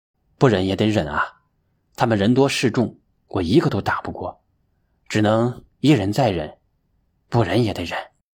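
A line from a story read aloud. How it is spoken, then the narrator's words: Sighing, resigned. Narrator (Chinese): 金乔觉叹了一口气，无奈地说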